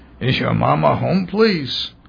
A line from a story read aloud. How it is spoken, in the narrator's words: Hoffman asked in his thick voice